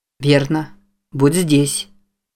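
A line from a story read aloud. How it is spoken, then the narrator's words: Surprisingly calm. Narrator (Russian): Удивительно спокойно сказал Джейк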